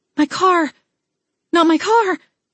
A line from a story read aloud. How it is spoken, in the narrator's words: I blurted out